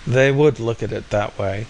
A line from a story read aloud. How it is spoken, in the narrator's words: sighed Maine